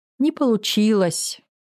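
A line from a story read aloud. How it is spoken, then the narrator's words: Sad child. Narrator (Russian): грустно заявляет ребенок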